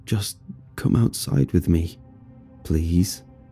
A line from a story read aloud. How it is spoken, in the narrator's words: Darren yet again mumbled